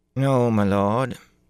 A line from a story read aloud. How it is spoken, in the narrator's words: Anya replied, frowning